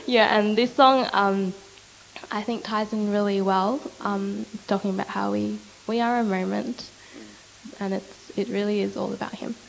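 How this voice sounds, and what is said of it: Voice slightly off, sick. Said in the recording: “my voice is a bit off today because I'm sick”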